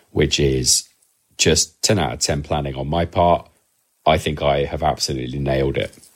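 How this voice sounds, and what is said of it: Sick, altered voice. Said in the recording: “my voice is slightly different to usual, and that's because I have managed to catch COVID”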